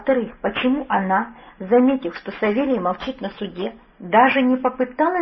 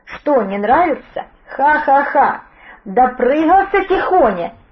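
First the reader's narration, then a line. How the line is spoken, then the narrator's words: Hysterical laughter. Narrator (Russian): истерично хохотал Федор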